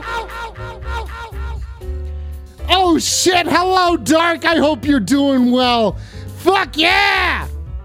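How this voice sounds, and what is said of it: Yelling loudly. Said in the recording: “I'm still yelling ... I'm yelling”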